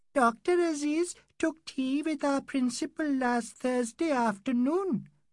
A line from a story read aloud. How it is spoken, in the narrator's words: piped Rafi, the engineer's nephew